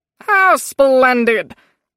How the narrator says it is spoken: Herr Schmeliger laughed loudly

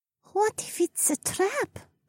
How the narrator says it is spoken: Edhara whispered

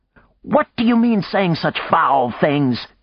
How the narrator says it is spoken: she shouted, her voice painful in her own throat

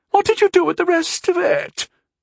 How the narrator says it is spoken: her mother shrieked

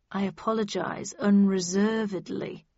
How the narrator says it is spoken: replied Tweed, through gritted teeth

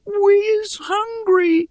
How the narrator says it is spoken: moaned Shim

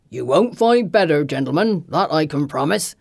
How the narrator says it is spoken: a man in a leather apron and tall boots bellows

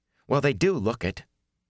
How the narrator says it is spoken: he added fiercely

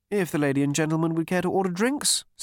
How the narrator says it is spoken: said the green blur, hovering impatiently

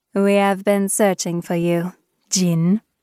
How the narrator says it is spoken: Sahara responded in her own smooth tones

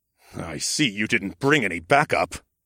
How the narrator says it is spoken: growled

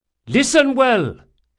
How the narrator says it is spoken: shouted Drakasha

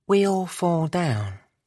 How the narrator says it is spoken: he said softly

